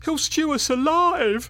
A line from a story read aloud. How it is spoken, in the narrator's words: wailed